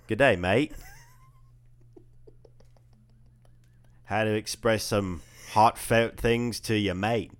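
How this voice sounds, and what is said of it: Bad Australian or New Zealand accent. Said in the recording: “Oh, that's bad. Let's work on your New Zealand accent. ... Australian?”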